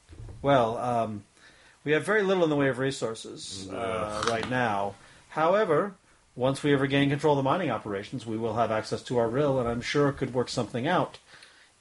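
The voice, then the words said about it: Character voice with an accent. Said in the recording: “How come Ascara has an accent, and you guys don't?”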